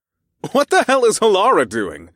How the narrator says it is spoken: I laughed

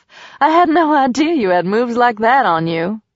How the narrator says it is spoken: Selena said with a laugh

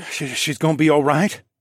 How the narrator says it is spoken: Bowden asked in a trembling voice

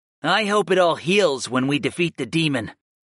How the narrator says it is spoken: Dio growled

